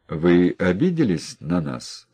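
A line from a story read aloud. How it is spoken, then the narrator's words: Plain. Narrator (Russian): спросили городские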